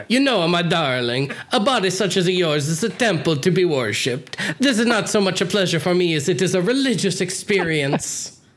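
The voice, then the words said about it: Put-on Italian-American accent. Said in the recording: “In the Guido? ... I gotta do the accent.”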